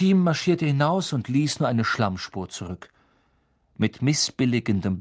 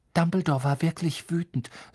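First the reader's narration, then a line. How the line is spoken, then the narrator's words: Trembling voice. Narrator (German): sagte Hermine mit bebender Stimme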